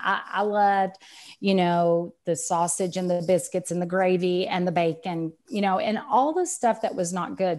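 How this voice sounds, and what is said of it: Texan accent. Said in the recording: “I'm Texan, as you can tell by the accent.”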